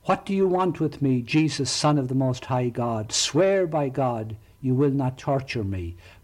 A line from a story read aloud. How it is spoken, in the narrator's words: He runs up and shouting at the top of his voice